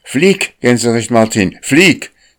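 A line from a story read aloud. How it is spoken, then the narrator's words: Urgent call. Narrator (German): rief Akka, denn sie sah ein, dass die Schwäne dem großen Weißen jede Feder ausrupfen würden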